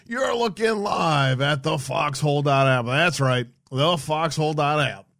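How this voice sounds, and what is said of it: Exaggerated radio announcer voice. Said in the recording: “In my best, worst radio voice I have.”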